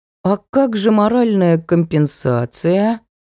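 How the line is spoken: Boy's drawl. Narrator (Russian): протянул мальчишка

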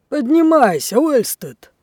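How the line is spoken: Old man's impatient shout. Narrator (Russian): нетерпеливо крикнул старый матрос

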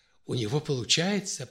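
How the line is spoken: Whisper. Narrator (Russian): прошептала Наталья

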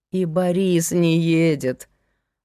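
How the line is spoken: Weary complaint. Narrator (Russian): устало жаловалась соседка

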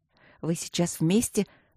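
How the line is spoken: Soft curious whisper. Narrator (Russian): прошептала я тихонечко, умирая от любопытства

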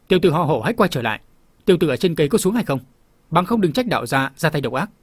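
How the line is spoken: Loud voice. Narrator (Vietnamese): Tiêu Giao chân nhân lớn tiếng nói tiếp

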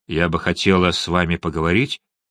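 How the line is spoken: Fading to a mumble. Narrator (Russian): стихла до бормотания

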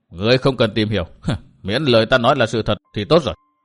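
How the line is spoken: Cold dismissive laugh. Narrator (Vietnamese): Độc Trung Chi Độc cười nhạt

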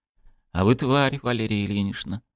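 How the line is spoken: Muttered. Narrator (Russian): пробормотал Болдин

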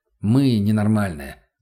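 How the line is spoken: Dry reply. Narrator (Russian): сухо ответил я

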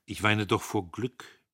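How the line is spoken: Plain. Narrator (German): sagte sie

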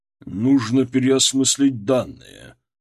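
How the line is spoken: Through gritted teeth. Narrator (Russian): процедил Митрохин сквозь зубы

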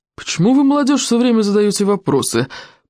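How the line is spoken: Grumbling. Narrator (Russian): проворчал Стоик обширный

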